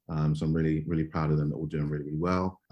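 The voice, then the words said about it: East London British accent. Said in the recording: “you can probably tell from the accent, not from the States, uh, born in London, uh, born in East London specifically.”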